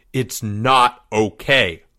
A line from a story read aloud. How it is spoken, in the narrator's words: Leo thundered